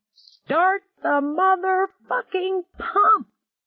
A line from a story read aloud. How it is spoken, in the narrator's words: he shrieked